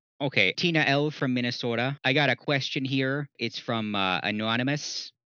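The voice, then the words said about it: Weak put-on Minnesota accent. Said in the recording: “my Minnesota accent is terrible. I haven't practiced it at all.”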